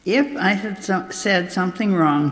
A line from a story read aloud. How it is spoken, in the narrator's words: Jesus replied